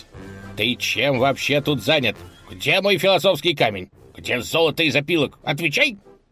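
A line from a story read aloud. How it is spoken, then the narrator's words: Menacing, growing angrier. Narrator (Russian): Он стал грозно наступать на коня, все больше распаляясь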